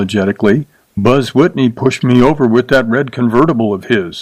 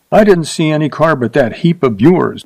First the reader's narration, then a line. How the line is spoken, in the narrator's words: she said sharply